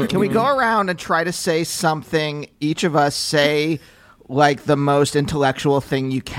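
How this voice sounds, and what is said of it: Usual voice. Nothing is said of it.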